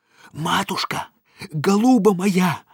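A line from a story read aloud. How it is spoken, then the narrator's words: Hissing. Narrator (Russian): зашипел Индюков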